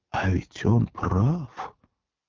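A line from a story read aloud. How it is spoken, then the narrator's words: Anxious whisper. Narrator (Russian): встревожно шепнул Берлиоз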